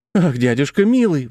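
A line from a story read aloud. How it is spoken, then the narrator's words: Young girl exclaiming. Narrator (Russian): воскликнула молодая девушка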